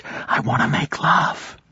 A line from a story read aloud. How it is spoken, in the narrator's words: Anna whispered